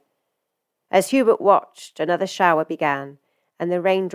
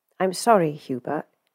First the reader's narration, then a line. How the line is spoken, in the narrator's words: he said gently